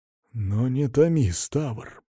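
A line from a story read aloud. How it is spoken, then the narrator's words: Whisper. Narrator (Russian): прошептал он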